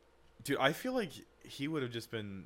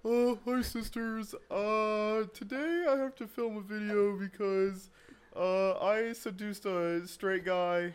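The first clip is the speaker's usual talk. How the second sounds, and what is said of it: Impression of James Charles. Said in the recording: “Give me your impression of James Charles ... Give me your impression.”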